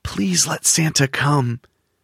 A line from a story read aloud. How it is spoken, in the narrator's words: he whispered